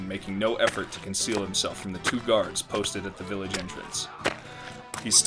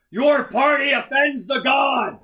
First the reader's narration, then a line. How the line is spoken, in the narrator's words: Grindel roared, voice amplified through his helmet speakers